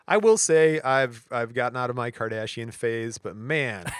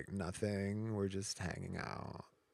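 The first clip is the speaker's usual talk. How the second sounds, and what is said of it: Imitated voice with vocal fry. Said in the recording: “I like the way Kourtney Kardashian talks ... oh, it's a vocal fry.”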